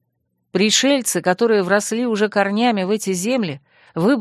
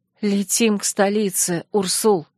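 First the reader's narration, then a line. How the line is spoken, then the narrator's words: Hoarse, shaken request. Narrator (Russian): охрипнув от кошмарности происходящего, попросила я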